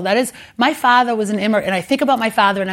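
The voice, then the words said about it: Boston accent. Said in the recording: “my Boston accent, which I'm very proud of ... I speak with a Boston accent”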